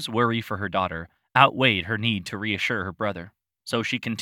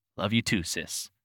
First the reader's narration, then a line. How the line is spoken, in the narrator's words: mumbled